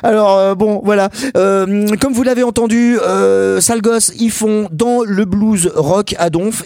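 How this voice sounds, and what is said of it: Lorraine French accent. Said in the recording (French): “j'ai pas besoin de me forcer pour faire l'accent lorrain”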